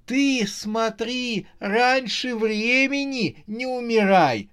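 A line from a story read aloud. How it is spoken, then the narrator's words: Moaning through laughter. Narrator (Russian): сквозь смех простонала Саша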